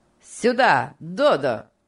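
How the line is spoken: Commanding shout. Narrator (Russian): повелительно крикнул Энрик

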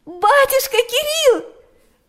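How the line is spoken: Exclaiming. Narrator (Russian): воскликнула она

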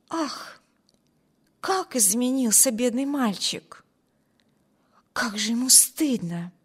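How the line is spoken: Whisper. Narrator (Russian): прошептала Алис своему спутнику

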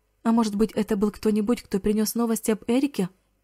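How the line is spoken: Supposing. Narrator (Russian): Предположила она

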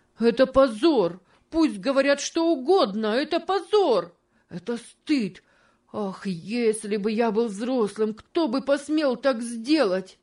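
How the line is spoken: Shouting, holding back sobs. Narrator (Russian): кричал он со сдержанным рыданием

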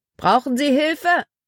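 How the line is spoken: Calling out. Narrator (German): Er rief einem Rothemd zu

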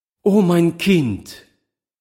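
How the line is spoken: Overjoyed mother calling out. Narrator (German): rief die überglückliche Mutter

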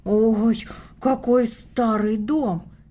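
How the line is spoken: Exclaiming. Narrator (Russian): воскликнула Таня

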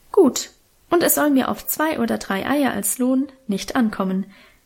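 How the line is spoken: Plain. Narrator (German): sagte die Bäuerin

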